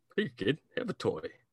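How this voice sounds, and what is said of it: Imitates another person's voice. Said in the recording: “That's exactly how Keanu sounds. ... That was a great Keanu impression.”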